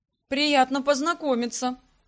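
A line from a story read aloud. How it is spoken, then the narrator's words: Emperor snorting. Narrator (Russian): хмыкнул император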